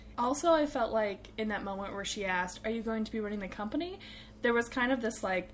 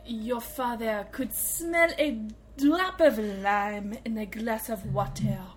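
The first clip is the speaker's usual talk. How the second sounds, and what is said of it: Bizarre put-on character accent. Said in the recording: “I'll be Kimmy wearing the amazing flower outfit and attempting her bizarre accent.”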